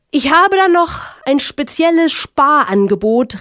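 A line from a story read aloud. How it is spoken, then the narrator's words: Shouting through megaphone. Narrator (German): rief durch ein eilends herbeigeholtes Megafon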